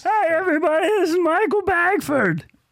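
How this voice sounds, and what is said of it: Drunken Barney Gumble cartoon impression. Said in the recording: “my Barney Gumble impression ... I made a joke that this gentleman was drunk during his intro ... my close- impression”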